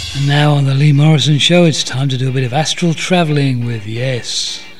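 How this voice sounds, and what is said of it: 1970s radio DJ voice. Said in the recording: “my 70s DJ voice”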